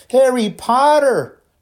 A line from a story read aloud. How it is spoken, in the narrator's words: shrieked Pansy Parkinson, a Slytherin girl